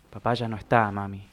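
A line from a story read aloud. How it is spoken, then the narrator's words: Sweet, resigned tone. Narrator (Spanish): dijo, esta vez con un tono dulce y de resignación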